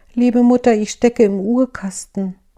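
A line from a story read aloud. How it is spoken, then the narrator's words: Small delicate voice answering. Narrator (German): als sie das Jüngste rief, da antwortete eine feine Stimme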